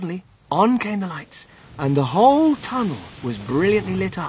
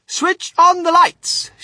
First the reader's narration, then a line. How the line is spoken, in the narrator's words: shouted Mr